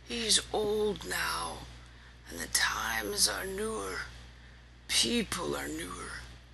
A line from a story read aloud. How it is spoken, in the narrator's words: smiling sadly, he said